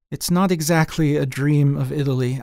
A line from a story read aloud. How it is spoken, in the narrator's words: I said, meaning it as an apology